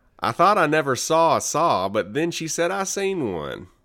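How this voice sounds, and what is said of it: Put-on Southern US accent. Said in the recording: “what accent am I doing? ... Southern.”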